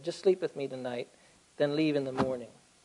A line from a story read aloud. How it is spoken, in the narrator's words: gently and said